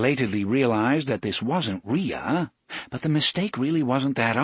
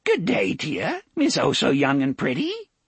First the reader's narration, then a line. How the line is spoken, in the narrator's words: Aunt Cord greeted her in a cracked, vivacious voice